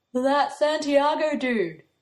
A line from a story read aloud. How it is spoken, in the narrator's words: Joe says, yawning into a book